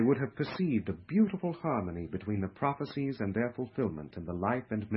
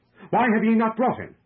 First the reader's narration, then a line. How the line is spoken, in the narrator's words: They were angrily questioned